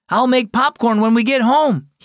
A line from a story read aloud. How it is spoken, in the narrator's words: he yelled over his shoulder